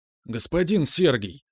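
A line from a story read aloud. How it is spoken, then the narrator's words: Pleading. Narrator (Russian): взмолился Франц Фердинанд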